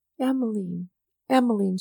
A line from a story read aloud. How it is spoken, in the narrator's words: she muttered in an undertone as if to recall that name